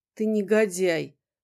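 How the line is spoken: Calm, dispassionate voice. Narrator (Russian): произнесла Арден спокойным, бесстрастным голосом

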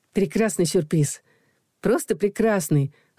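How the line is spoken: Delighted exclamation. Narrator (Russian): в восторге воскликнула я

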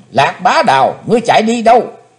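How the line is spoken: Sudden loud shout. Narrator (Vietnamese): bỗng thét lớn

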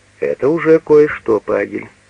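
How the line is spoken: Plain. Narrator (Russian): сказал он

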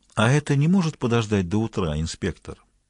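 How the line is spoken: Calm question. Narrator (Russian): спокойно спросил Андерсон

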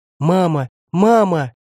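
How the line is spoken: Girls' tearful cries. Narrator (Russian): кричали девчушки со слезами

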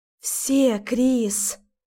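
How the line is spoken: Dropping to a whisper. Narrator (Russian): понижая голос до шепота, произносит Алина

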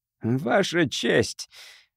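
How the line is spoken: Hoarse, faltering voice. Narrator (Russian): хрипло начал Нинхаймер и не смог продолжать

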